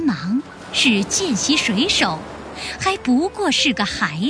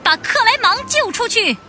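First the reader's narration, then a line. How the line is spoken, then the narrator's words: Shouting. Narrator (Chinese): 他喊道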